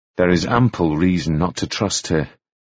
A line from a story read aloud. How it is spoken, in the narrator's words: he said coldly